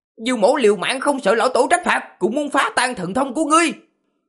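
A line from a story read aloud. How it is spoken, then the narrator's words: Fierce loud shout. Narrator (Vietnamese): Diêu Trường Không trên mặt lộ ra vẻ dữ tợn, quát lớn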